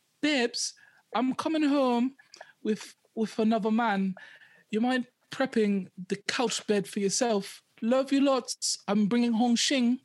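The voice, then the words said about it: Put-on British accent. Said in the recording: “Because he's British. That accent sounded like, I didn't know where you were going at first, but you got there. ... I can do man accents.”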